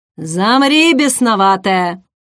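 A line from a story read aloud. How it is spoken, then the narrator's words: Barked. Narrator (Russian): рявкнул Хелрой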